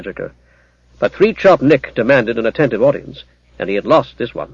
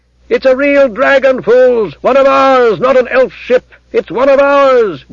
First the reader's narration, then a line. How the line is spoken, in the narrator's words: Gareth shouted